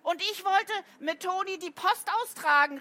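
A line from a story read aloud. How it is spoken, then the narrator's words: Called out. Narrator (German): rief Paul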